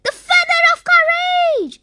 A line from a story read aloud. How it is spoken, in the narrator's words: shouted Zippy